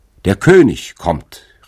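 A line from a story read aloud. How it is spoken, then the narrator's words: Bird calling out. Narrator (German): rief ein prächtiger Vogel, der im Hintergrunde des Thrones saß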